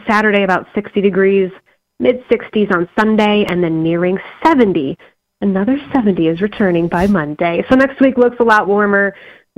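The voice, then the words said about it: English accent. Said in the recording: “you want it from an English person. You know, that voice, that accent”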